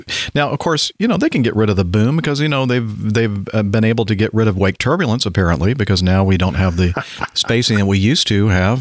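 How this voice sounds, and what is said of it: Sarcastic tone. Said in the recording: “that's being sarcastic ... You're being funny”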